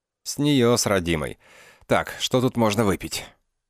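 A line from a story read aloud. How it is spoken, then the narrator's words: Suddenly hoarse voice. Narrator (Russian): он произнес внезапно осипшим голосом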